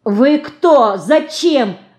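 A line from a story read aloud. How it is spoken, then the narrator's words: Loud shout. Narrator (Russian): громко кричит Динка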